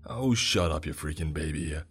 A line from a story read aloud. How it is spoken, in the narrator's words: Wilson snapped, punctuating by gritting his teeth